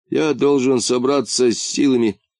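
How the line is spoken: Even sadder voice. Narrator (Russian): сказал Вольдемар еще более грустным голосом

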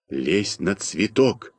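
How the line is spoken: Quiet whisper. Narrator (Russian): тихо шепнул я Малинину

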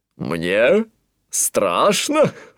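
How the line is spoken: Laughing. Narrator (Russian): рассмеялся Антуан

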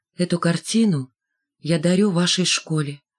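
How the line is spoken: Simple and quiet. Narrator (Russian): добавил просто и тихо

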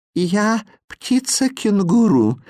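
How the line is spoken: Tender singing voice. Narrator (Russian): нежным голосом пропело чудовище

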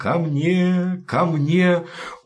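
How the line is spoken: Tender calling voice. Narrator (Russian): звать нежным голосом

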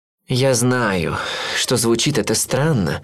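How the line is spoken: Sigh. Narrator (Russian): вздохнул он

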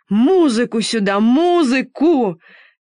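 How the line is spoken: Shouting. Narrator (Russian): кричал император

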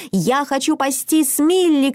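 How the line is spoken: Shouting. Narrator (Russian): кричала Мина

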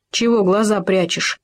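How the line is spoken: Stern hare. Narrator (Russian): строго сказал заяц

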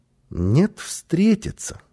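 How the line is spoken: Calm child's answer. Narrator (Russian): спокойно ответил малыш

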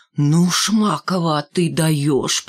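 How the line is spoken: Moaning. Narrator (Russian): простонал Валька

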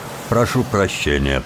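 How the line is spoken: Driver mumbling. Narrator (Russian): пробормотал шофер

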